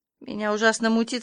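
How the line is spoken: Slightly hoarse. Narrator (Russian): сказала чуть хрипло

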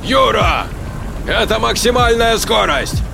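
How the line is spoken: Shouted reply. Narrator (Russian): кричал в ответ Гречкин

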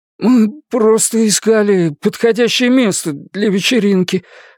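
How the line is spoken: Bearded man, stammering. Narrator (Russian): запинаясь, проговорил бородатый

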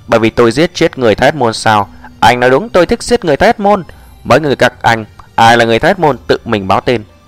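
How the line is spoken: Cold voice. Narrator (Vietnamese): Giọng lạnh lùng Diệp Mặc lại vang

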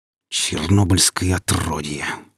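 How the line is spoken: Hissed through teeth. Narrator (Russian): сквозь зубы прошипел гриф

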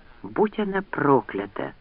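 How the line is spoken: Whisper. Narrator (Russian): прошептал он

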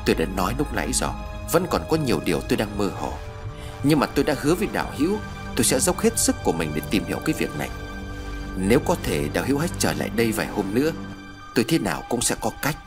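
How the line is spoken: Pensive, soft sigh. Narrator (Vietnamese): Trầm ngâm một lúc, vị tu sĩ nhẹ thở dài

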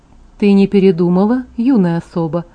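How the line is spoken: Calm question. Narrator (Russian): спросил Карлайл спокойно, как обычно

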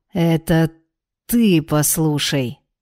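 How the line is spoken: Angry hiss through teeth, male. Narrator (Russian): зло процедил он

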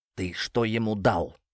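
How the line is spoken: Sinister whisper. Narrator (Russian): Иван зловеще шепнул капитану на ухо

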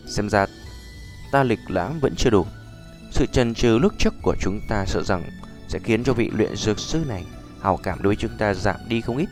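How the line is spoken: Sighing, bitter laugh. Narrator (Vietnamese): Nhã Phi thở dài một hơi cười khổ

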